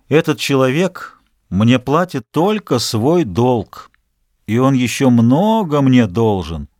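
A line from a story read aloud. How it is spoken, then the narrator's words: Calm. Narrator (Russian): Он ответил спокойно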